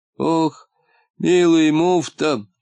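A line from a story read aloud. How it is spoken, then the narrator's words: Sighing. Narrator (Russian): вздохнул полботинка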